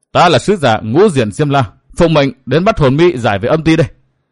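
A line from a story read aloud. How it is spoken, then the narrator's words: Shrill girl shouting. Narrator (Vietnamese): Thiếu nữ áo lam quát giọng lanh lảnh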